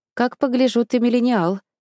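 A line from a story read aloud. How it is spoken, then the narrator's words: Laughing reply. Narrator (Russian): ответила смеясь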